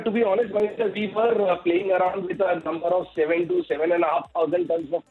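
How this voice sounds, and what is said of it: Heavy accent, hard to follow. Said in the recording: “as best you can through his accent”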